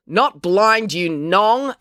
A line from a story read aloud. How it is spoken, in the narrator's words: April yelled at Mr